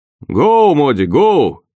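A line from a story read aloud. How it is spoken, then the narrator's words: Rough, hoarse shout. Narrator (Russian): крикнул мне Рот грубым, хриплым голосом, в котором не было ничего от рева сопровождавшего его прыжок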